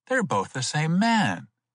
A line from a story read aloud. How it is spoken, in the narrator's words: he exclaimed